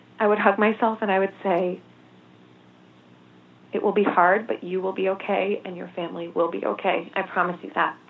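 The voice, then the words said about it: Emotional, breaking voice. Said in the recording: “my voice is breaking a little bit. I get a little bit emotional”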